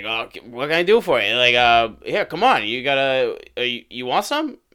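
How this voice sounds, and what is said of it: Raspy, rough-throated imitated voice. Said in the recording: “he kind of has that accent ... his throat's real fucked up from the cigarettes”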